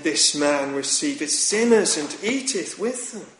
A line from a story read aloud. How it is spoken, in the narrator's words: the Pharisees and scribes murmured, saying